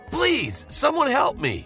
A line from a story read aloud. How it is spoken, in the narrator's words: I shouted